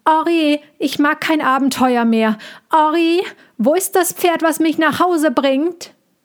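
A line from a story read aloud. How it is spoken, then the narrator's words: Calling out. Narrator (German): er rief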